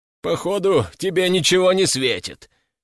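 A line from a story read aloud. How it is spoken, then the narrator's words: Laughing. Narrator (Russian): продолжил смеяться Метляков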